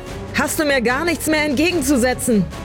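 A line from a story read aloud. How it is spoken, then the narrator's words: Wild screaming into wind. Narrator (German): schrie sie mit wild durchdrehenden Augen in den Wind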